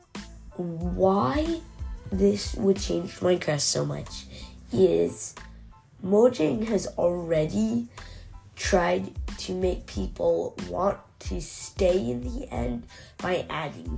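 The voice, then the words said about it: Sick-sounding voice. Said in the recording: “sorry about my voice. I've been really sick.”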